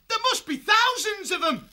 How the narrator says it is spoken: He yelled

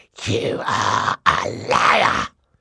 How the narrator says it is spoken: he hissed at Violet

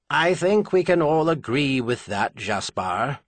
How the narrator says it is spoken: Trinair said calmly

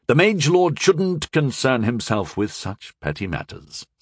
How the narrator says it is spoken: Sir Kay said smoothly

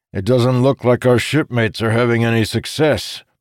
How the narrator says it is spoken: Morjadayan said with a groan

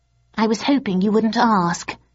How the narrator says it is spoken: he sighed

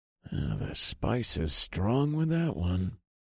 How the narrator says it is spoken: I muttered to myself

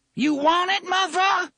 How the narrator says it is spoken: she screamed at him

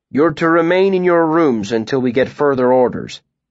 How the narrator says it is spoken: he said

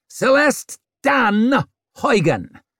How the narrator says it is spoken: snapped Swarbrick

